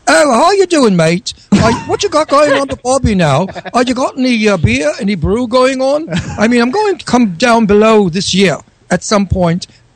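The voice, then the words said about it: Poor put-on Australian accent. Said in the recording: “Let's get an Australian accent here ... when I do an English accent, they say I sound Australian ... that stinks, right? ... get the accent correct”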